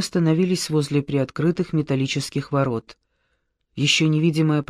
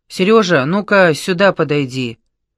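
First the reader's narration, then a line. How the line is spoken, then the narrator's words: Menacing boom. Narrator (Russian): грозно прогудел его голос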